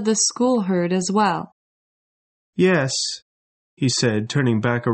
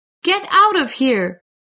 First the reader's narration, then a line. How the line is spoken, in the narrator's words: shouted